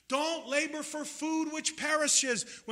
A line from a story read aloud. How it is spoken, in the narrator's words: he cried out in the streets